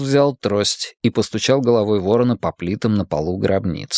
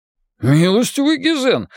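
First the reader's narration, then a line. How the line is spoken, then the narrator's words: Exclaiming. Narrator (Russian): воскликнул Джеспер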